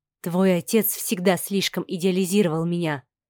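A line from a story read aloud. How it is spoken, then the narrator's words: Spoken quietly. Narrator (Russian): тихо проговорила Инга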